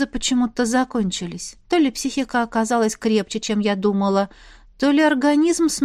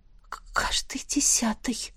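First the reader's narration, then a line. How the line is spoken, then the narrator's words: Sighing. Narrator (Russian): вздохнула я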